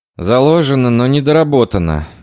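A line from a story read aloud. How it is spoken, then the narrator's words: Heavy sigh. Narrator (Russian): тяжело вздохнул Рен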